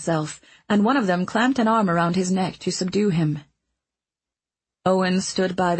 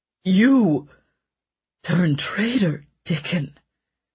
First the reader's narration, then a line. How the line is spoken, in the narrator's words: the king said in a husky whisper